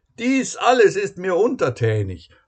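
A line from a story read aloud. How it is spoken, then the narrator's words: Calling out. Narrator (German): ruft er im sanften Wind seinem Gast zu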